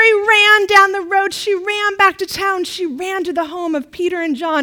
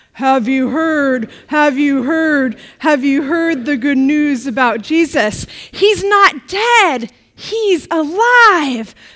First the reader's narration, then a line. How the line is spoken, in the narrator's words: the angels said to her in a very deep voice